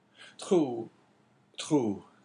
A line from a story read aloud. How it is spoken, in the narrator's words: said Caderousse in a choking voice